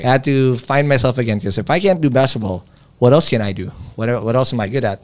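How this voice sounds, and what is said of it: Trained neutral American-like English accent. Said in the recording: “that's how I developed this accent ... if I don't talk like this ... picking up that neutral accent or the as close to an American accent as ... It's actually trained”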